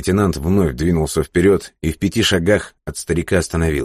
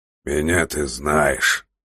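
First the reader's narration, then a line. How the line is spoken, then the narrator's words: Old man grumbling. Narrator (Russian): проворчал старик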